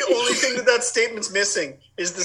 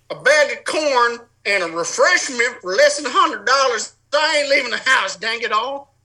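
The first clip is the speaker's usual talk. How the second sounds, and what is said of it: Put-on folksy country accent. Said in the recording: “Sans the accent ... the spit into the spittoon”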